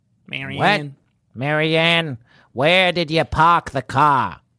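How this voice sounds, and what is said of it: Nasal New England accent. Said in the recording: “New England accent ... Nasalier ... That's good”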